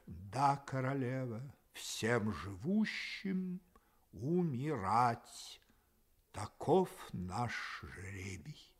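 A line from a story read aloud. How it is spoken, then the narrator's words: Reproachful. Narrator (Russian): с упреком ответил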